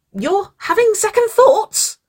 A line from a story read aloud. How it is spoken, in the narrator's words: Winona screeched, her face paling